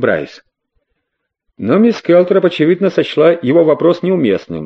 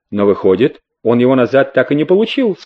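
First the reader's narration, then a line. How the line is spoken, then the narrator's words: Plain. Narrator (Russian): сказал Леттим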